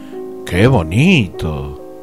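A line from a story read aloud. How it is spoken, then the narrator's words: Exclaimed, echoing. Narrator (Spanish): Ninguno de los hombres de su séquito veía nada, pero exclamaban como el emperador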